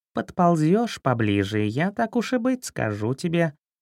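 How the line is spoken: Cat's purring voice. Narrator (Russian): промурлыкал кот

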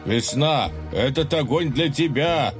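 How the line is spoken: Frenzied lovesick shout. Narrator (Russian): кричал влюбленный, совершенно обезумевший от внезапно свалившихся на него чувств

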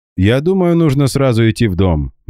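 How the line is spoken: Cheerful proclamation. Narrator (Russian): бодро провозгласил Гера, которого движуха, наоборот, увлекла

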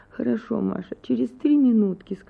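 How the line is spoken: Pleading voice. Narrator (Russian): сказала Анна Акимовна умоляющим голосом

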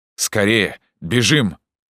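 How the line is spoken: Urgent shout. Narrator (Russian): заорал я

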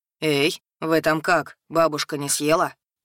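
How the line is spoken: Sympathetic booming voice. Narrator (Russian): участливо прогудел над головами сладкой парочки голос Хагарсона

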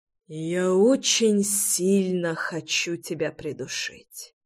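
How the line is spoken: Exhaled, suppressed anger. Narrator (Russian): выдохнул Реми, гася злость и ярость

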